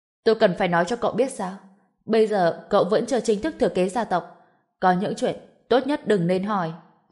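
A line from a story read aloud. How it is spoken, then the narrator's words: Stern. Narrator (Vietnamese): Sắc mặt Vân Tịnh hiển nhiên đã thay đổi, nghiêm giọng nói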